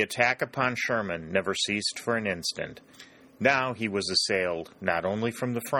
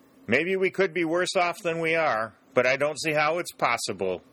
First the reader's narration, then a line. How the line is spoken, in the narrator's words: shouted Dick in return, a certain grim humor possessing him for the moment